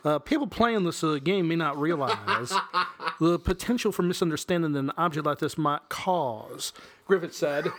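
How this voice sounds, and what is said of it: Attempted Texas accent. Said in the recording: “Was that a Texas accent you tried to pull there? ... You didn't get a y'all in there or nothing.”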